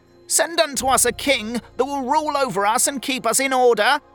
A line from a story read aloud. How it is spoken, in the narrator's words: they cried